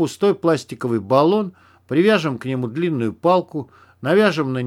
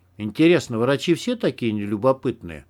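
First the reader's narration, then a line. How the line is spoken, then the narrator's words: Plain. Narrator (Russian): спросил он Егора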